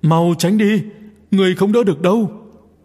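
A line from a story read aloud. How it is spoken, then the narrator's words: Loud shout. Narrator (Vietnamese): nàng liền hét to lên một tiếng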